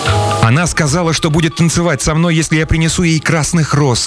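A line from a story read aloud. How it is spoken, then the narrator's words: Young man exclaiming. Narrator (Russian): воскликнул молодой студент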